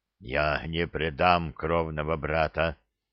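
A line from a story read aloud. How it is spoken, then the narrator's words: Lifeless voice, young orc. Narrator (Russian): мертвым голосом ответил молодой орк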